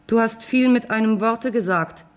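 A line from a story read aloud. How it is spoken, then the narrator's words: Calling out. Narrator (German): rief wieder einer von ihnen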